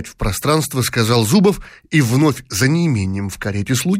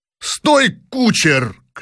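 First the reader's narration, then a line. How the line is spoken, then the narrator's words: Shout. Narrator (Russian): крикнул, наконец, князь Щербатов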